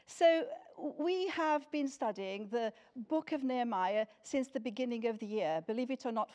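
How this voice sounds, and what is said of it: Portuguese accent and intonation. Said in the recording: “my accent or my intonation come from, I was born in Lisbon in Portugal, and that is where I grew up until I came to this country when I was 18”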